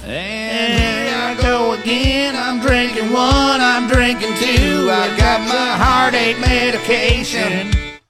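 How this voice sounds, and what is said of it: Fake Southern cowboy accent, singing. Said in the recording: “that fake accent. It's the Northern California cowboy accent. It's just a fake parody of a Southern accent.”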